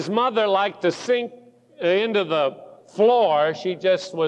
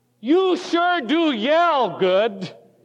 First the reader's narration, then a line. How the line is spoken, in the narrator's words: he said in a very loud voice